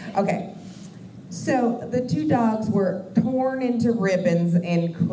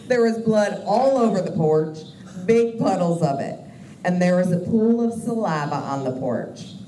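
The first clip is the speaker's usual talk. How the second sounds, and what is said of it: Put-on southern twang. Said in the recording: “I feel the need to add a southern twang when I'm talking for these guys”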